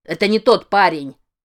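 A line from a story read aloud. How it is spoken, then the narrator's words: Barked. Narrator (Russian): рявкнул Крис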